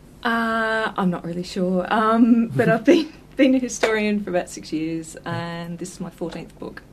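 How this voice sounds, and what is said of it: Slight Australian accent. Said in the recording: “you've got a bit of an Australian accent”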